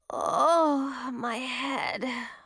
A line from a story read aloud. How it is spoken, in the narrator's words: moaned Zoe